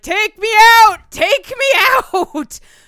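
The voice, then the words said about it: Yelling. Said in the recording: “I'm yelling”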